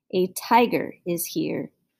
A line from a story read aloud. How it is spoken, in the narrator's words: he growled deep in his throat